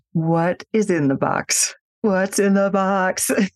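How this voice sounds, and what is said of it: Imitates another person's voice. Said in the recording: “my Brad Pitt impression”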